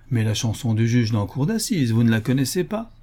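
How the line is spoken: Brisk, lively. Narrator (French): Harris vivement

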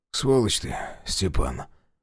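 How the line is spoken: Muffled reply. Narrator (Russian): глухо отозвался Василий

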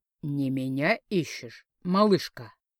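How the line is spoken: Deep booming bass. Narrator (Russian): низко пробасил обладатель выдающейся груди

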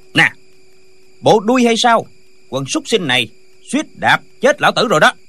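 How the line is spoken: Shouted. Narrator (Vietnamese): Lệnh Hồ Xung quát

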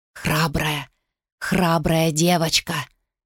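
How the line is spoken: Whisper. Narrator (Russian): прошептала она

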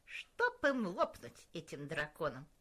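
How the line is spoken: Grumble. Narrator (Russian): проворчал Джейлс

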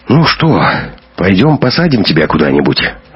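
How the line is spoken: Resigned sigh. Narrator (Russian): обреченно вздохнул папин помощник

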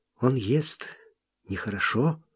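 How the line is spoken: Quiet. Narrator (Russian): Лобискви сказала негромко

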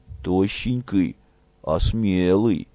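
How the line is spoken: Sighing. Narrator (Russian): Ольга вздохнула

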